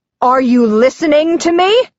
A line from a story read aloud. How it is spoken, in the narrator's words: Purdy yells